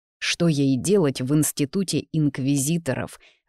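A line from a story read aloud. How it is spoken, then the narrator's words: Growling. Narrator (Russian): рыкнул Изарт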